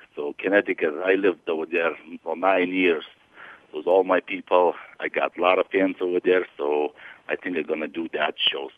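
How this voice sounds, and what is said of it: Lithuanian-accented English. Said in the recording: “You don't sound like you've got a freaking Connecticut accent. ... I'm from Lithuania originally ... Eastern Europe”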